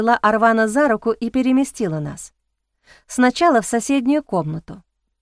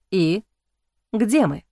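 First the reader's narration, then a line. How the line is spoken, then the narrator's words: Plain. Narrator (Russian): спросил он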